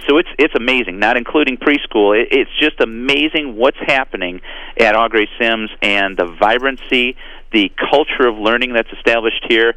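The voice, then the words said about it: Excited, enthusiastic speaking voice. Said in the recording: “Hopefully you can hear the excitement in my voice. ... Every time I talk to you, I hear the excitement in your voice”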